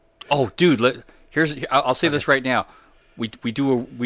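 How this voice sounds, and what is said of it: Usual voice. Nothing is said of it.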